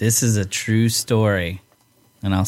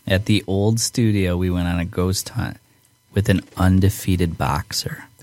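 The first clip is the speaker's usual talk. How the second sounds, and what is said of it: Spooky scary ghost-story voice. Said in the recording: “I'll say it in my scary ghost voice”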